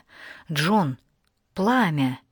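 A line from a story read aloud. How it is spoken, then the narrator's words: Whisper. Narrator (Russian): шепнула она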